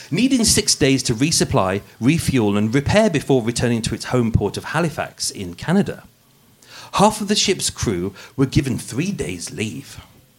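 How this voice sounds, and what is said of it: Put-on posh English accent. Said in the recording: “putting on my posh voice for you today, the podcast voice ... it will go back to being normal with hint of Brummy in there”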